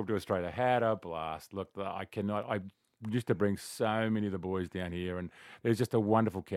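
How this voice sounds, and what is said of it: Usual voice. Nothing is said of it.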